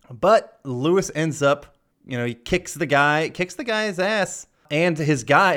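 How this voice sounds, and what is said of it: Usual voice. Nothing is said of it.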